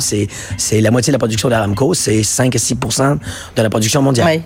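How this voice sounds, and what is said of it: Canadian French accent. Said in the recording (French): “vous êtes Canadien, d'où cet accent, même si ça fait 30 ans que vous êtes en France, vous gardez cet accent délicieux et charmant”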